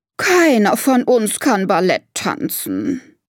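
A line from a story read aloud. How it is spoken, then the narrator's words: Elephant lady sighing. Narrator (German): seufzt Elefantendame Martha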